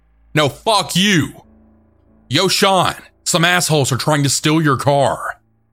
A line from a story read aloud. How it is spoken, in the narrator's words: I was rather annoyed and yelled back